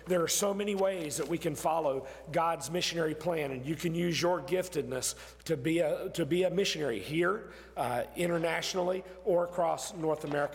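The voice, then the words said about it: Strained, fading hoarse voice. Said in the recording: “I'm losing my voice more and more”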